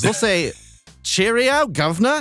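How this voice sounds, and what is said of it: Bad put-on British accent. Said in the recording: “Horrible accent. I'm sorry. That was criminal.”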